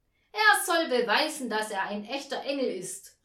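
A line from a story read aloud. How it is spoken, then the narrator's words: Loud call, guest. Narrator (German): rief ein Gast laut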